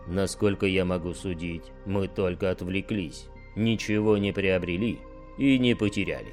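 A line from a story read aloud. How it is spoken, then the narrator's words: Growled. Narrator (Russian): прорычал повелитель имперских кулаков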